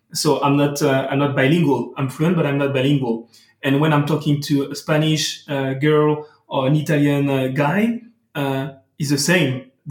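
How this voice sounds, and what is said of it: French-accented English. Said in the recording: “I'm talking English, as you can hear, but with a beautiful French accent.”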